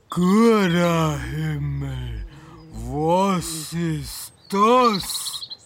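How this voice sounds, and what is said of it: Very deep, extremely slow strange dialect. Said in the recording (German): “Es war ein sehr seltsamer Dialekt, aber es war unsere Sprache. Nur sehr tief und unglaublich langsam.”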